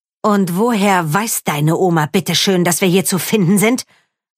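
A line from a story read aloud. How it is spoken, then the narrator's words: Hissing. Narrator (German): fauchte sie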